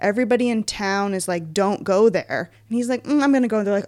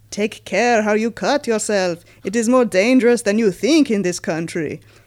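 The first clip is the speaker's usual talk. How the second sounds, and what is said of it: Put-on Dracula character accent. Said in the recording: “Should I do this in the accent or no? ... this is Dracula talking ... we'll be able to tell it's Dracula”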